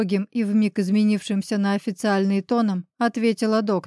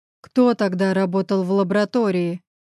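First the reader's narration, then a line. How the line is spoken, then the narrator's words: Growled. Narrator (Russian): прорычал Гриша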